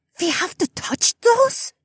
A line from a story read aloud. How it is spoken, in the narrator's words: Hilda hissed